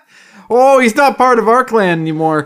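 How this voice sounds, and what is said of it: Generic Midwestern parent accent. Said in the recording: “are you under the assumption they're from Minnesota? ... it's just a generic parent accent. ... You know parent accent. That typical parent voice.”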